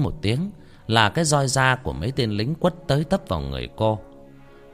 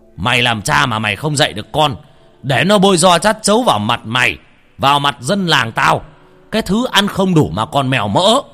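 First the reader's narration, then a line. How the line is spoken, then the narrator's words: Hissed through teeth. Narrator (Vietnamese): Trưởng địa vẫn rít qua kẽ răng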